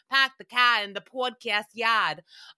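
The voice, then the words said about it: Exaggerated New England accent. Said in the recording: “I don't have that much of a New England accent.”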